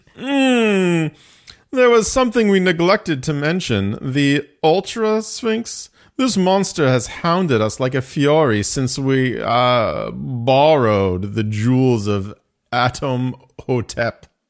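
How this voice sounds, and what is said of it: Performs a character's voice. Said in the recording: “I can't wait to do his voice.”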